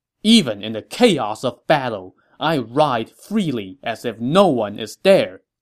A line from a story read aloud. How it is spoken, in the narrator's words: Guan Yu scoffed